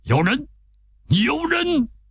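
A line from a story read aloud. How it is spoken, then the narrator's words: Startled loud shout. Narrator (Chinese): 老妖精 被响声一下子惊醒了 高声叫着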